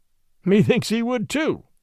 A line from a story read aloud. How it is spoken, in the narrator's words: quoth Robin, laughing